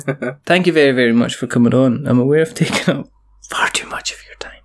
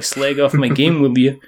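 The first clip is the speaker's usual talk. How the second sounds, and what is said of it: Poorly done put-on accent. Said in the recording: “That was a bad accent”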